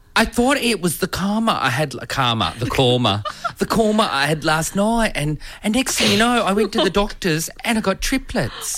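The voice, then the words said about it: Put-on British English accent. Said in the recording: “Are you thinking a UK English? ... I'll do a little accent.”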